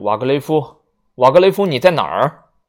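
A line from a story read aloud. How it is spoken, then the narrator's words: Loud shouting. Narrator (Chinese): 阿姆斯特朗大声的喊着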